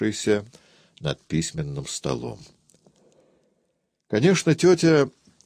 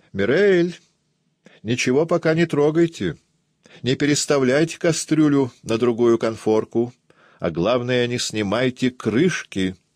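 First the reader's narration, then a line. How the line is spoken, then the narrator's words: Shout. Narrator (Russian): Она крикнула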